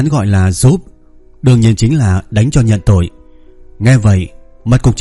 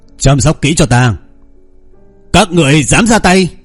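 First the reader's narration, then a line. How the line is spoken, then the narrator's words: Loud shout. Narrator (Vietnamese): Cục trưởng Phong lớn tiếng quát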